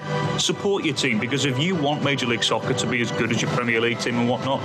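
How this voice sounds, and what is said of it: British accent, rousing speech style. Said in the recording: “Wow, that was like Winston Churchill. ... the British accent really helped carry it.”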